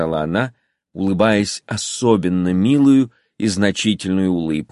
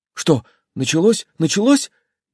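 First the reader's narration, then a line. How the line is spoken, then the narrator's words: Frightened male voice. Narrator (Russian): испуганно проговорил он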